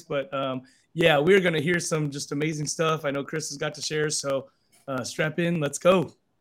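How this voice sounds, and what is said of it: Scratchy, hoarse voice. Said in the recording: “Got a little, laryngitis, residual laryngitis going on here. So apologize for the scratchy voice.”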